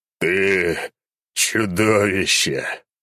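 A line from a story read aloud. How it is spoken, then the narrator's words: Moaning. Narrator (Russian): простонал я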